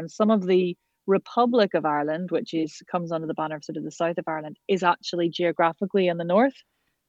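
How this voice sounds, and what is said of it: Northern Irish accent. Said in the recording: “your accent is quite different to someone from the south of Ireland”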